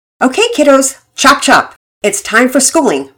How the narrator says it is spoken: Mama Peters called out

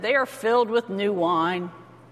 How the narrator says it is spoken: But others sneered and said

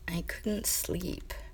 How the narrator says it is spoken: Mamoru mumbled into the blanket

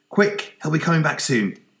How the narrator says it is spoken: Toby said, frantically

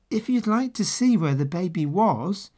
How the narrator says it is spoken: he said kindly

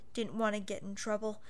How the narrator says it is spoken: embarrassed, and mumbled

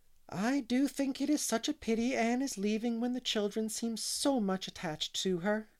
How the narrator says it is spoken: sighed Mrs

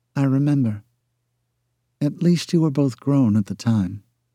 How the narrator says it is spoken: she added softly

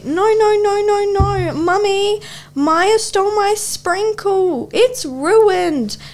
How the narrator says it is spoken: Eli screamed at me

